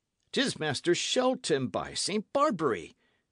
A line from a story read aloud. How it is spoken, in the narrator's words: cried Hatch